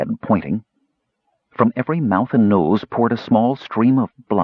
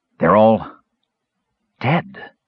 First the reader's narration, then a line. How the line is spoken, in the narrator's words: Caramon gasped